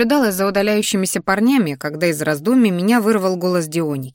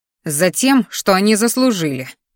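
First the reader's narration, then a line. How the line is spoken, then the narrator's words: Through gritted teeth. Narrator (Russian): процедила сквозь зубы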